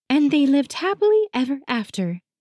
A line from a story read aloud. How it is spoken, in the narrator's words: In a cheerful voice, trills